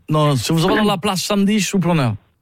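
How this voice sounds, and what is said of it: Fake foreign accent in French. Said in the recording (French): “J'ai peut-être accent, parce que je viens de... ... On est international.”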